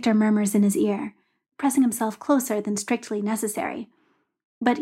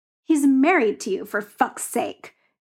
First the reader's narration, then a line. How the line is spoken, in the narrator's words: Yuri snarls